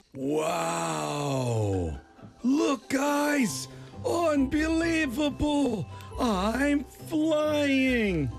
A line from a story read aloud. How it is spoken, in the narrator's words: John shouted